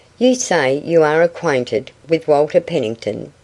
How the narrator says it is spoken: she asked

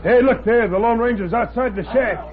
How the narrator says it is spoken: Tack Miller yelled

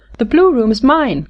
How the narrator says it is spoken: cried Louise

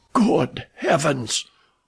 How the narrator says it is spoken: whispered Clayton in a horrified tone

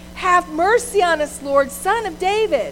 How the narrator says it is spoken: they shouted even more loudly

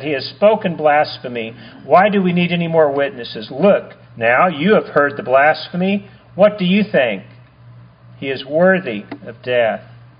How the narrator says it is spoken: they answered

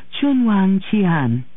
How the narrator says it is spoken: Auntie Ying frequently repeated, whispering into the air

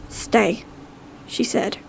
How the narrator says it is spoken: her voice near whispering, containing an urgency

